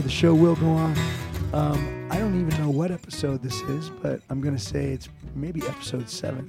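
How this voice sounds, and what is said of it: Husky, under-the-weather voice. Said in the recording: “Excuse my sexy voice today. Little under the weather”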